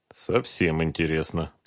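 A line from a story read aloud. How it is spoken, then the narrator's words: Muttered. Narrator (Russian): пробормотал Дронго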